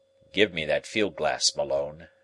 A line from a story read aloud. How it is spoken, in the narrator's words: said he gravely